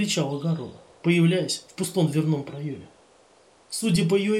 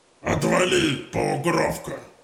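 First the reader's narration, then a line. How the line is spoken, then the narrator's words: Orc's harsh bark. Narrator (Russian): Рявкнул орк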